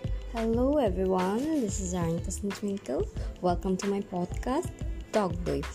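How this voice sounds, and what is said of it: Voice changed, sounds sick. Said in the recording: “pardon my voice, it's not my actual voice. Like I got cold just 4 to 5 days ago and it's almost recovering”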